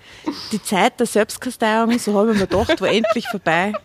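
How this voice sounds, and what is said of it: Reading in Austrian dialect. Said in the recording (German): “Die österreichische Sprache ... im Dialekt ... lesen”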